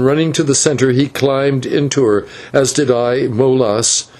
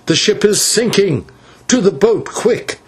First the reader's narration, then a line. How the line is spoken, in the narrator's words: he cried